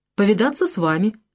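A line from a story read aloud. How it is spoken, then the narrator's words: Cheerful reply. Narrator (Russian): весело ответил Валентин Валентинович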